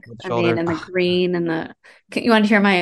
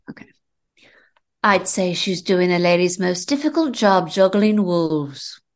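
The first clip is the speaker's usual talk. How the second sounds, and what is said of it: Grace Kelly impression. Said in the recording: “my Grace Kelly impersonation”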